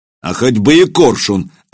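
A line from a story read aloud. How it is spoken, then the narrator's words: Barked. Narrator (Russian): рявкнул Илья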